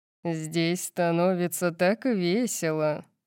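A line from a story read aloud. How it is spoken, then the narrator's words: Purring voice. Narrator (Russian): промурлыкал Макс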